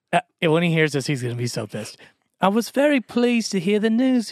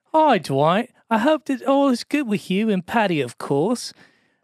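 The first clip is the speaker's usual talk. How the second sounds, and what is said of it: Put-on polite British accent. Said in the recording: “In the most polite British... Should I read it in his accent?”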